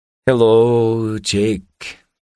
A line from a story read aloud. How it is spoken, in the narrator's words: he said very slowly